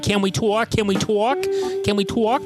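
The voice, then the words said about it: Imitated Brooklyn accent. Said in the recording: “She was the little Brooklyn ... her accent sounded so weird”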